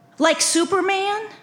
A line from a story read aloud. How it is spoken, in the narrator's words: I exclaimed